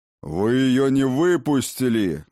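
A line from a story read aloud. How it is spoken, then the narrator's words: Old man's roar. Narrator (Russian): взревел старый Хрофт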